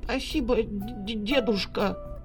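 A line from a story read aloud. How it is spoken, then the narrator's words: Stammering, relieved of fear. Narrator (Russian): Запинаясь, сказал Серёнька, которого вдруг совершенно отпустил страх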